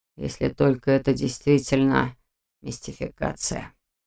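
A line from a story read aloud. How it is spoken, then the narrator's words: Doubtful mutter. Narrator (Russian): пробормотал Нев с сомнением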